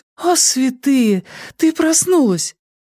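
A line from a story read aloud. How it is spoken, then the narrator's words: Sobbing. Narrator (Russian): Нина разрыдалась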